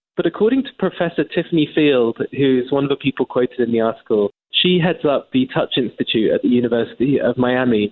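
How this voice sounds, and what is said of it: English accent. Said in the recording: “as an Englishman, as you can tell by my accent”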